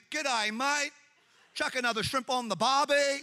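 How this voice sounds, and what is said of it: Exaggerated put-on Australian accent. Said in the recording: “people are always trying to do an Australian”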